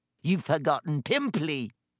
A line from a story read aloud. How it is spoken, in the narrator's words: Peeves hissed in her ear